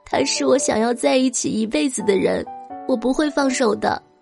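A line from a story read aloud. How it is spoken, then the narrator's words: Crying. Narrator (Chinese): 方小小一边哭一边说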